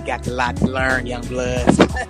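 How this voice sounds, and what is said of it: Imitates another person's voice. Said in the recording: “put on my Cuddy voice.”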